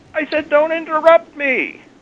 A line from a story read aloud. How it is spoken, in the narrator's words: the man shouted